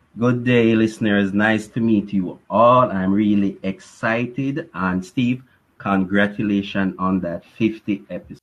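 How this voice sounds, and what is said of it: Jamaican accent. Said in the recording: “accent,... he's in Jamaica”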